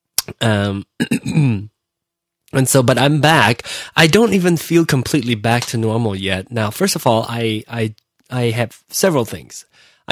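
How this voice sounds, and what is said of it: Hoarse voice. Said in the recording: “my voice is a little hoarse. ... I got strep throat”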